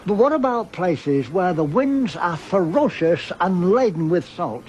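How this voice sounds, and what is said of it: Australian man with English accent. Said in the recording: “A very famous Australian voice with an English accent.”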